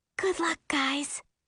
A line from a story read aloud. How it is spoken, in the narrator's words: Dory whispers